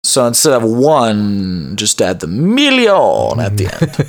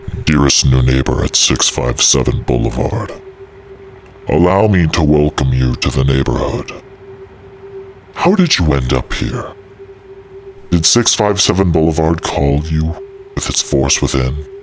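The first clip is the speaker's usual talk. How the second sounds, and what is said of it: Spooky, scary reading voice. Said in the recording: “Got to get my spooky voice on. ... Scary. ... Spooky scary.”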